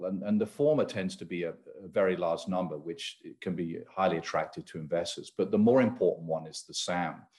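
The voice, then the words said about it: British accent. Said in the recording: “you can probably tell from my accent, from the UK”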